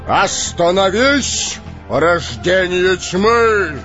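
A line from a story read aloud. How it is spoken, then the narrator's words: Resonant voice. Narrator (Russian): Звучным голосом произнес Гэндальф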